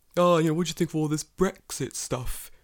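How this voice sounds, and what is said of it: Mocking put-on UK accent. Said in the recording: “your mockery, your mocking like UK accent.”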